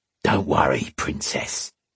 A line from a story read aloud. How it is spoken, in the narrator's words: he hissed